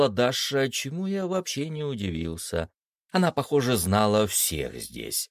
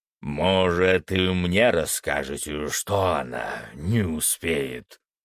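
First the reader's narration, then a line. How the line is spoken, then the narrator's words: Growled. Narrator (Russian): прорычал Фенрис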